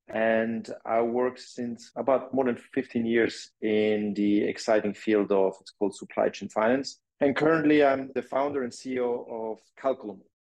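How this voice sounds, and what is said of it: Swiss French accent. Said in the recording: “You can hear from my accent. Originally, I'm not from here. I'm Swiss and French.”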